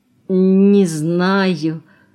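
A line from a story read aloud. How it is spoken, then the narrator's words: Trembling, forced-out words. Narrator (Russian): вздрагивая всем телом, выдавил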